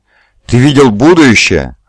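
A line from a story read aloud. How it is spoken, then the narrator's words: Exclaiming. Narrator (Russian): воскликнул Лемюэль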